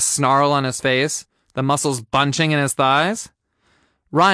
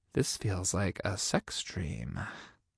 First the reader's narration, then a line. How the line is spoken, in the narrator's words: I breathed